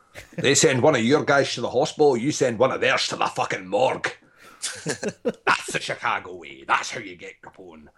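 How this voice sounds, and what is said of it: Sean Connery impression, slurred S's. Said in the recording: “I am Sean Connery from Scotland... we'll do the same voice that I use in every fucking movie... when you use your S's like this”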